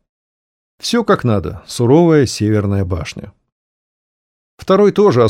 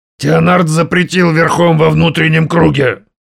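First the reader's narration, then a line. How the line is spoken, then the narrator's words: Growl. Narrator (Russian): рыкнул Лотар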